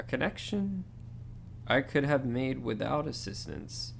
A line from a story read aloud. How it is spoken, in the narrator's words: Dumbledore sigh